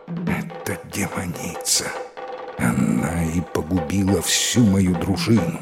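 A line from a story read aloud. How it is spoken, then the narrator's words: Horrified whisper, prince. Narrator (Russian): принц невольно с ужасом прошептал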